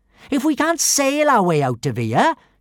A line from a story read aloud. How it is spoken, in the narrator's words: she yelled